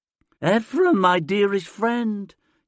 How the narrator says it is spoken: says in a thin voice

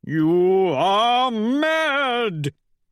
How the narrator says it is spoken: he howls

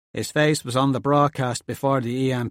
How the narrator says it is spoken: the handsome one says in the same accent

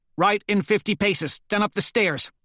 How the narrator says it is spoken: snaps

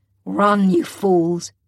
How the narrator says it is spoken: he roars at us

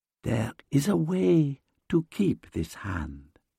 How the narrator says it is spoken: whispers

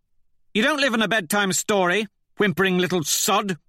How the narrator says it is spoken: snaps

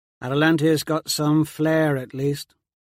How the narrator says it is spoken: Colloway drawls

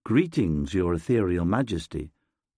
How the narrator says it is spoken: the vessel purrs

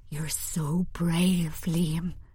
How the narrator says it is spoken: I whisper

